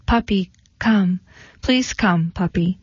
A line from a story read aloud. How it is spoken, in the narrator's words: Diane her lower lip quivering, in a soft voice she called